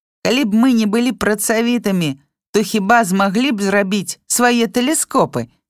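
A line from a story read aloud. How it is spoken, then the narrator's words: Oldest boy shouting. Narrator (Belarusian): крычаў самы старэйшы хлопчык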